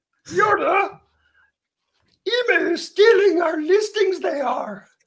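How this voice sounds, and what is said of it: Yoda character voice impression. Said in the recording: “They do Yoda impressions. ... let's hear Yoda then.”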